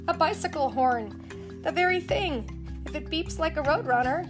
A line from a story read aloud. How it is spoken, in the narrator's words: cried